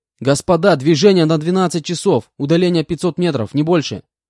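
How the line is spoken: Shouted into headset. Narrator (Russian): выкрикнул я в гарнитуру

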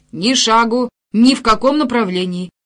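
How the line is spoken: Old man shouting sharply. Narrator (Russian): прикрикнул старик

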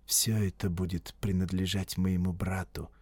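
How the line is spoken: Quiet. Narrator (Russian): негромко сказал он

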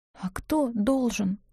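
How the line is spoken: Strangled whisper. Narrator (Russian): спросила сдавленным шепотом

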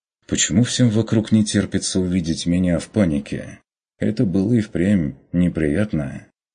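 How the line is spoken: Agreeing. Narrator (Russian): согласился Курт

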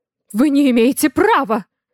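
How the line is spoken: Shrill squeal. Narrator (Russian): взвизгивает Валентин Григорьевич

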